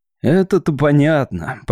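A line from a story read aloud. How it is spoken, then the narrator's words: Grumbled. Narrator (Russian): проворчал Гендерсон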